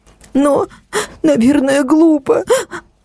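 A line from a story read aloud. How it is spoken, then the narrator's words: Sobbing. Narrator (Russian): она всхлипнула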